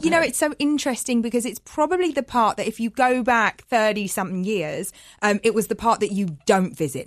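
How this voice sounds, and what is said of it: East London English accent. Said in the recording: “you can hear it in her voice. You grew up in East London.”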